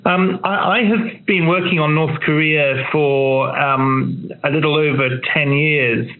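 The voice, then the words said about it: London English accent. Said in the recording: “as you can probably guess from my accent, from London”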